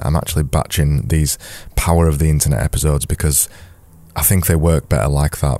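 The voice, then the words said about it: Raspy, fading voice. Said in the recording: “losing my voice at the minute. It's getting a bit raspy,”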